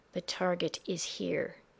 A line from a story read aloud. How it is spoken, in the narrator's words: he said softly